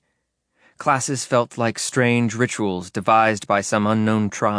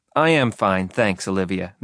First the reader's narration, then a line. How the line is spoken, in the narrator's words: Mitty said